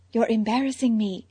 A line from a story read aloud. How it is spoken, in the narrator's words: Selina whispered